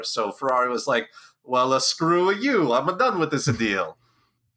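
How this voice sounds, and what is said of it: Enzo Ferrari impression. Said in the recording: “Flawless Enzo impersonation”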